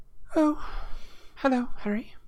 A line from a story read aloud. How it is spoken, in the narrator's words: she said in a brittle voice